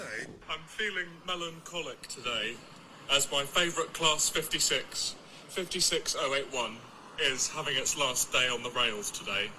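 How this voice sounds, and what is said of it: British accent. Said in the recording (German): “dieser widerliche britische Akzent”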